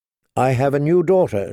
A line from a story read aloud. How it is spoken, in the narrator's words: she said, more stiffly than she'd intended